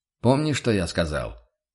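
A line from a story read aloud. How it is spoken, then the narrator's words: Stern rebuke. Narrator (Russian): Отдернул Курт строго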